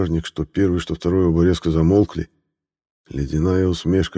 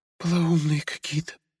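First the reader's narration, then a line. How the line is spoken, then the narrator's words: Whisper. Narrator (Russian): прошептала Фия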